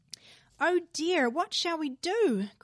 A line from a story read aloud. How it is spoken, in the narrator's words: cried Mary